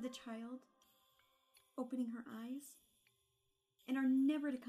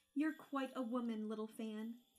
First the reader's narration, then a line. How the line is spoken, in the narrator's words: exclaimed the boy